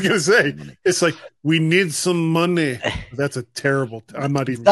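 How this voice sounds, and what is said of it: Usual voice. Nothing is said of it.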